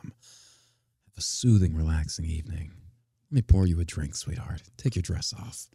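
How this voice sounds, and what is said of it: Put-on seductive sexy voice. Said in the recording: “sound like a murderer ... That was my sexy voice.”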